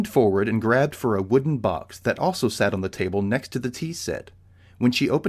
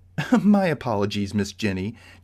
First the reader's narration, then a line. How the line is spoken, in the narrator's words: Josephine chuckled